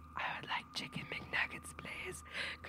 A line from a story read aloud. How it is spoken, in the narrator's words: I hear a voice whisper